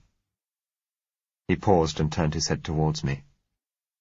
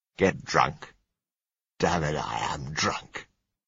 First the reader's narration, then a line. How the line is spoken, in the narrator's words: he said scornfully